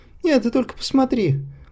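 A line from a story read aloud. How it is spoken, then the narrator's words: Laughing ever louder. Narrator (Russian): захохотал все громче, не утирая сползающих по щекам слез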